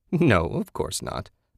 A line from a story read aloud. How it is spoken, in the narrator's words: the woman laughed